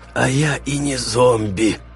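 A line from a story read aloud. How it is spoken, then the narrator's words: Creaky wretched creature. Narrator (Russian): проскрипело несчастное существо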